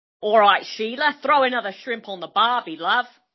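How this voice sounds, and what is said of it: Put-on Australian accent. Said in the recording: “We were going to do Australian accents, weren't we? ... Amazing. That was really good.”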